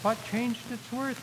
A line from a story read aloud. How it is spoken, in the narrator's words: he said